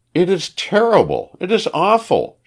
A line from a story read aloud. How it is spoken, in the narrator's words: she cried